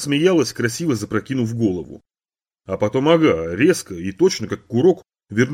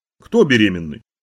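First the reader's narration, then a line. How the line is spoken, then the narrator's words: Asked, not mockingly. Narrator (Russian): решил, что насмешливо спросила, а теперь сообразил, что нет, не насмешливо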